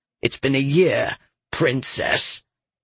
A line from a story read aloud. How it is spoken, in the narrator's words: Senin growled